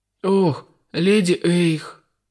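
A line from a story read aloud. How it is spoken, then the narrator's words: Trembling mutter. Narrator (Russian): пробормотал кто-то дрожащим голосом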